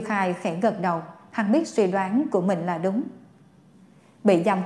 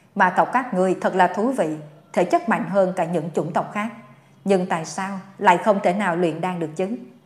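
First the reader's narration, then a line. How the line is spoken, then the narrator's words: Gloating laugh. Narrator (Vietnamese): Dương Khai bật cười, như thể vui sướng trước nỗi đau của người khác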